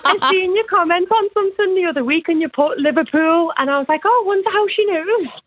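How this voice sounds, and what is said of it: Liverpool accent. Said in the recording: “are you from Liverpool? ... I never get the accents right.”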